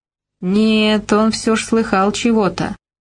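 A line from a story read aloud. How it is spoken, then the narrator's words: Drawled. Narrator (Russian): протянул Вовян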